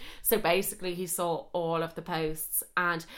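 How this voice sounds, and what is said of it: Usual voice. Nothing is said of it.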